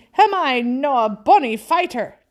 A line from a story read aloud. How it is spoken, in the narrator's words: he cried in a kind of ecstasy